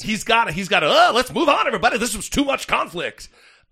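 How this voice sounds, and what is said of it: Radio DJ voice. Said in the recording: “I don't know why I'm doing the DJ voice a lot today”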